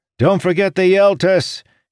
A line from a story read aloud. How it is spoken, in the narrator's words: he shouted to Morjadayan